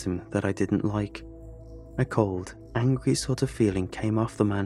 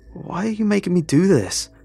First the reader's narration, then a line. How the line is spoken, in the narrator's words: I yelled at the man in the suit